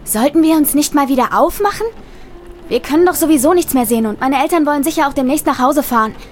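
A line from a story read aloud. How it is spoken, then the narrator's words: Near-shout over loud rain. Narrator (German): schrie fast, um den lauten Regen zu übertönen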